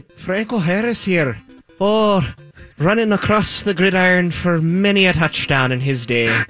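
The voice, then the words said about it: Put-on Irish accent. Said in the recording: “Could you imagine it with an Irish accent?”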